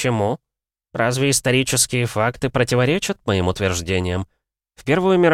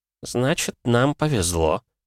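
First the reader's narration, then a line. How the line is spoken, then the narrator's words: Muttered. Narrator (Russian): пробормотал политик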